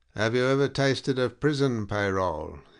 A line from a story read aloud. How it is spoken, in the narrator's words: he asked suddenly, in an affectedly sleepy voice